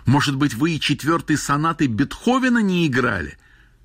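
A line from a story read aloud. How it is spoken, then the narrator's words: Foolish shout. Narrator (Russian): Травин закричал совсем глупо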